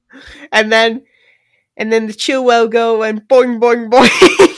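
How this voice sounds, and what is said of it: Put-on British accent. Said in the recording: “the British impersonation”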